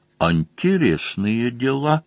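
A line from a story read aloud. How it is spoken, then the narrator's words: Quiet conclusion. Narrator (Russian): Мазур тихонько заключил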